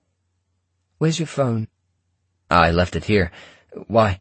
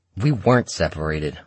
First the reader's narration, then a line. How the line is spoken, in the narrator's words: I said irritably